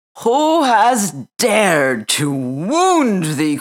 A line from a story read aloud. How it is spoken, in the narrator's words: cried the giant